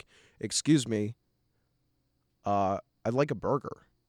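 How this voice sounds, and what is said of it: Exaggerated clear American accent. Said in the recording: “speak in my most clear American accent”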